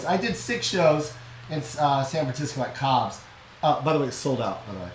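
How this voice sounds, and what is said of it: Hoarse, strained voice. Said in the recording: “I just lost my voice.”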